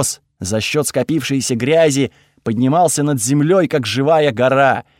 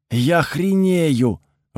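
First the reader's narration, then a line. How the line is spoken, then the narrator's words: Breathless exclamation. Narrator (Russian): выдохнул рядом Чез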